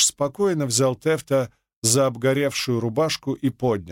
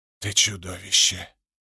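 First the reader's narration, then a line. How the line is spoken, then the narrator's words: Whisper. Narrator (Russian): прошептал Тефт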